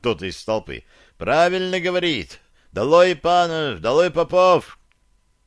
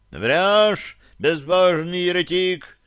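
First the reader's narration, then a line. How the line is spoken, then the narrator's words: Monk shouting from crowd. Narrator (Russian): крикнул с толпы монах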